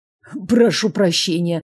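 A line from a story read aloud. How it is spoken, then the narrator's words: Strained wheeze. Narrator (Russian): сдавленно просипел он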